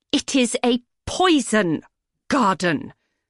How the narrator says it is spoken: Sandra spat

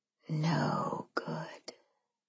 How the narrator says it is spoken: I whispered in his ear

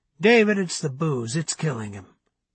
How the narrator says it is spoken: he said in a soft but firm tone

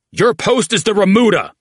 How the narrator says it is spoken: Oates barked

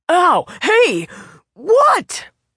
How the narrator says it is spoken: the man spluttered

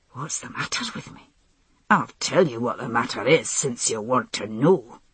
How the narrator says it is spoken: he said through clenched teeth

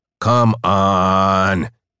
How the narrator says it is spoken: he whined

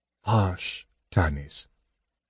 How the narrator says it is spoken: Gold Moon said gently

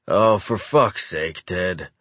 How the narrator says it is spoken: growl

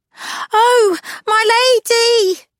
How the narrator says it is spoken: She yelled

